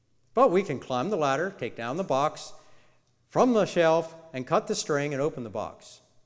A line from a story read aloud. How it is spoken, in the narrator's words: said Toad